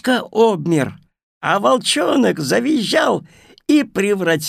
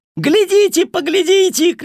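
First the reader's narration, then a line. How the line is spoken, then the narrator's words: Shouting little house-spirit. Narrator (Russian): кричал домовенок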